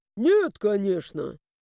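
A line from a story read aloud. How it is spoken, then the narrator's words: Snorted. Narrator (Russian): Фыркнул призрак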